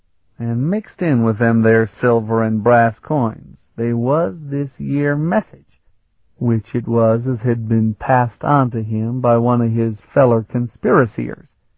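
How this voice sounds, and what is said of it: Thick put-on rustic dialect. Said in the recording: “You don't have to entertain me with that dialect.”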